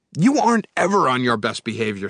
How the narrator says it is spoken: snapped Erdrick

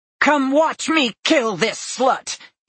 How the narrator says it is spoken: he shouted

